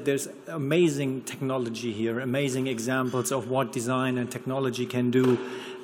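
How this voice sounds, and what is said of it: German accent in English. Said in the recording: “I'm from here, I'm from the Ruhrport, but I, I hope to avoid my German accent a bit.”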